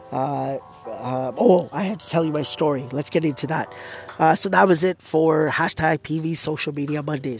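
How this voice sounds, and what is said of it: Hoarse, failing voice. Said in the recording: “I feel like I'm losing my voice even more.”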